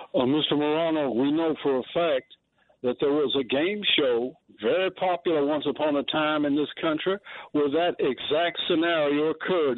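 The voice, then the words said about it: North Carolina accent. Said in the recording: “I love your North Carolina accent”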